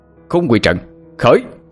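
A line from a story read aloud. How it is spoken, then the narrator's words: Shouted incantation. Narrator (Vietnamese): quát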